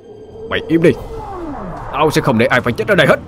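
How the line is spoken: Shout. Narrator (Vietnamese): Anh hét lên

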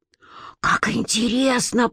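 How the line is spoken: Whisper. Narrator (Russian): прошептала Лидка

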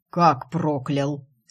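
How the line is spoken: Indignant deep voice. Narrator (Russian): С негодованием пробасила она

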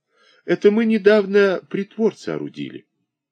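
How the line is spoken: Joyful. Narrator (Russian): повар радостно сказал

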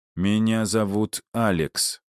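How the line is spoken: Cold repetition. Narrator (Russian): холодно повторил я

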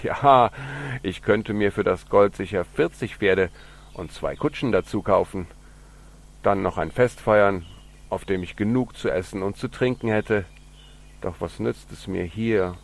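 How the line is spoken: Laughing speech. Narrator (German): lachte Hans und sagte

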